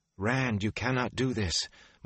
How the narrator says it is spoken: Moraine cried

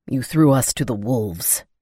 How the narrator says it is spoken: he growled

